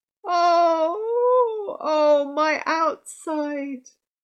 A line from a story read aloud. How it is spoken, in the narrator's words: She moaned